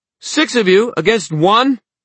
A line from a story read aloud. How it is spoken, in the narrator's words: Emma shouted, the wind whipping her hair